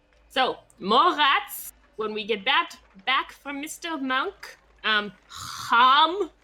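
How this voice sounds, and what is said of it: Put-on accent. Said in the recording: “That is great in that accent.”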